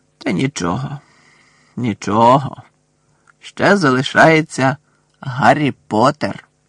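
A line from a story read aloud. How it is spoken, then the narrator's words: Snake's hiss. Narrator (Ukrainian): Змія зашипіла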